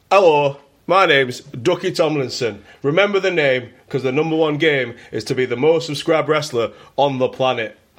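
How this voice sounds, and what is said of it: Put-on Yorkshire accent. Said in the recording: “I can't do the New York accent. I'm doing Yorkshire.”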